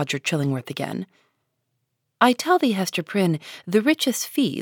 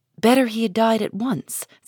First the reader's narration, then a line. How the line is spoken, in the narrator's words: said Hester Prynne